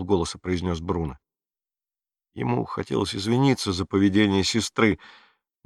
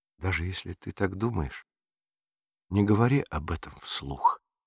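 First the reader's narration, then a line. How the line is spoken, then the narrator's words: Whispering. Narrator (Russian): зашептала Мария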